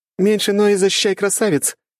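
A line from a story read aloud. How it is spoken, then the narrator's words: Girl giggling. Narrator (Russian): хихикала единственная девушка в отряде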